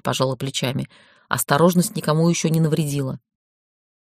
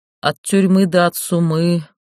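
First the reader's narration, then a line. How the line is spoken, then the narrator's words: Sad. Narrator (Russian): печально сказал Полянский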